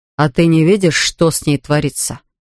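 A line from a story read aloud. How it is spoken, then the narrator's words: Grim question. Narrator (Russian): мрачно спросил Игорь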